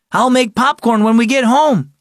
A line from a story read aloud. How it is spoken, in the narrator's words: he yelled over his shoulder